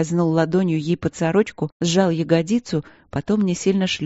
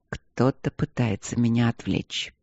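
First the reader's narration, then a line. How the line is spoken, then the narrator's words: Stern whisper. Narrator (Russian): прошептал Демьян сурово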